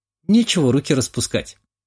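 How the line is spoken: Snorting. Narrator (Russian): хмыкнула Анна

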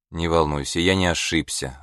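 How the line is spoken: Irritated. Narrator (Russian): раздраженно сказал он

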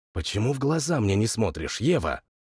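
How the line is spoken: Angry whisper. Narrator (Russian): злым шепотом спросил я

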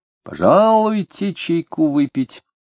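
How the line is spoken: Resonant voice. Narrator (Russian): предложил он звучным голосом

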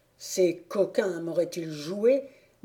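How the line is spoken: Grumbling. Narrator (French): grommela Olborius

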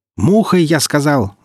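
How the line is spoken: Yelled. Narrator (Russian): заорал Ильин

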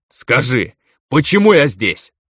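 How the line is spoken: Cripple barking. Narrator (Russian): рявкнул калека

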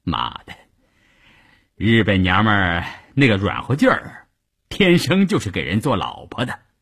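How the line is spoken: Laughing. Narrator (Chinese): 笑着对一旁的三五九旅副旅长谭之林说

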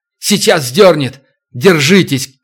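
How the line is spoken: Shouted. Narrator (Russian): крикнул Туран

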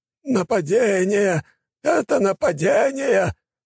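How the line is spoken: Man's hoarse rasp. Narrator (Russian): прохрипел мужчина

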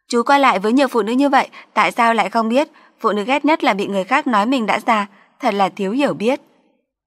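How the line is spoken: Sarcastic. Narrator (Vietnamese): An Giao tỏ vẻ mỉa mai

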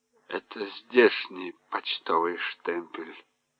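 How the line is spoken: Quiet woman. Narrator (Russian): тихо проговорила она

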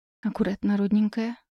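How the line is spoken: Whisper. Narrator (Russian): шепнула

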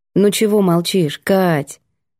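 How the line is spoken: Soft question. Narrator (Russian): спросила мягко

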